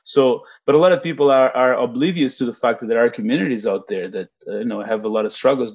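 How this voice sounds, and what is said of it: Non-native English accent. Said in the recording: “I'm an immigrant to Canada, as you can tell by my accent.”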